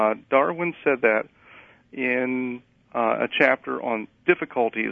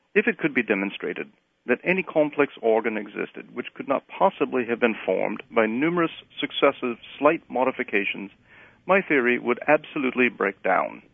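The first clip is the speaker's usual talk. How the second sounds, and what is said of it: Put-on British accent. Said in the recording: “I will not use my British accent. Well, maybe I will.”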